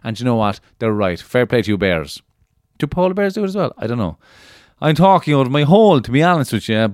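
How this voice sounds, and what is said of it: Cork Irish accent. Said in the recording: “I'm in the Cork accent now”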